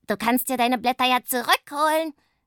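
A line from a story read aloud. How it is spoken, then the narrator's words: Gleeful shriek. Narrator (German): kreischt Pumpernickel vergnügt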